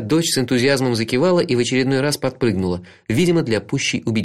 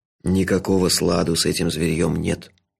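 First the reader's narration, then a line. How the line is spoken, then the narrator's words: Whisper. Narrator (Russian): шепотом сообщил он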